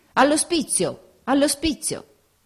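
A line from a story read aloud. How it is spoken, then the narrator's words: Street cries. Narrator (Italian): Per via le grida di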